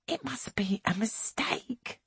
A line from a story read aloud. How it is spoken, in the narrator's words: whispers Angelica